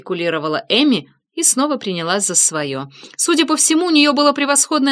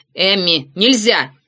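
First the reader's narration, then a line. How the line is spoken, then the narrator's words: Sharp scolding shout. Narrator (Russian): прикрикнул Эллиот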